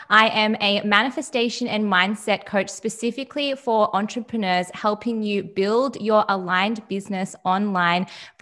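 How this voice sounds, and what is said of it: Australian accent. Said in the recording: “If you can't tell from her accent, ... is actually from Australia.”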